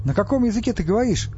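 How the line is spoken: Indignant address. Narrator (Russian): возмущенно обратился он к Мегле на всеземном

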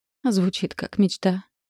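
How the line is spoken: Sad smiling. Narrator (Russian): улыбнулась она грустно

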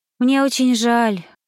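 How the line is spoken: Sad sigh. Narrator (Russian): грустно вздохнула

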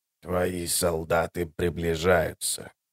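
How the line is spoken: Hoarse, Greek. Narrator (Russian): хрипло произнес мертвец по-эллински

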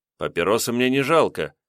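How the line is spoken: Calm explanation. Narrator (Russian): пояснил спокойным голосом Илья

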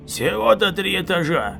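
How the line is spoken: Booming from above. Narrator (Russian): прогудел сверху Хо

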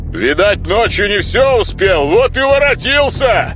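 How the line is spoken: Angry shout. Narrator (Russian): злобно выкрикнул кто-то еще

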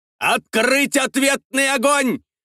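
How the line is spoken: Shouted command. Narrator (Russian): прокричал адмирал Слейд

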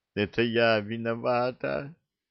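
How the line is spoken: Sudden sobbing young woman. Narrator (Russian): Всхлипывая, сказала вдруг девушка

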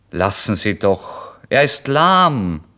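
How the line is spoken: Innkeeper calling out. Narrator (German): rief der Wirt

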